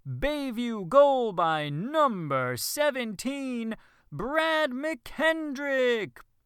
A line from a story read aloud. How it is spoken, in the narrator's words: boomed over the loudspeaker